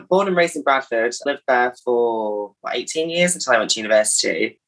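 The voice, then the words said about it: Mild northern English accent. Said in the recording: “I think I've still got a little bit of a northern accent, but not as much as I used to. You can tell I'm northern, but probably not. A bit of a nondescript northern accent.”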